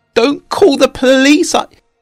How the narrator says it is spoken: he begged

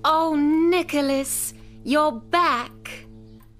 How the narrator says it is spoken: she cried, full of joy at seeing her brother again

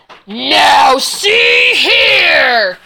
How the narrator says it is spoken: roared Papa Bear

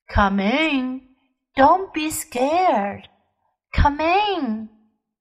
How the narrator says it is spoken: She said in a gentle voice

